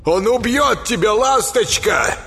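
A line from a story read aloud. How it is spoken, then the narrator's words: Shout after someone. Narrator (Russian): крикнул ей вслед Йолу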